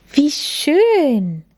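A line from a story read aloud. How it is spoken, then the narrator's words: Exclaiming. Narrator (German): rief Lilly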